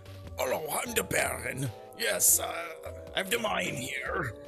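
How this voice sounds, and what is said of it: Poorly done character voice. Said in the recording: “terrible Baron impression”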